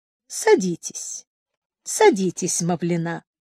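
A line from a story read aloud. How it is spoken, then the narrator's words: Ingratiating, insinuating tone. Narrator (Russian): Сказал вкрадчиво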